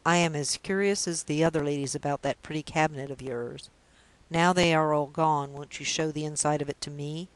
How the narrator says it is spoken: The doctor laughed in his pleasantest manner

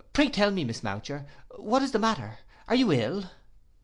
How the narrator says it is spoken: Quite alarmed at being the only recipient of this untimely visit, and the only spectator of this portentous behaviour, I exclaimed again

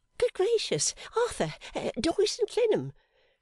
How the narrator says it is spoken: cried that lady

